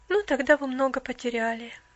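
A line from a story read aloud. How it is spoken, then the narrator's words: Sad speech. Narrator (Russian): печально проговорила девушка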